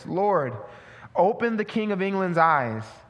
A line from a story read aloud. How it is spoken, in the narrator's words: the reformer exclaimed in a loud and suppliant voice